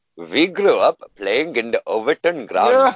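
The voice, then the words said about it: Put-on Scottish accent. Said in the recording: “as he's a taxi driver from Scotland, I better do the appropriate accent.”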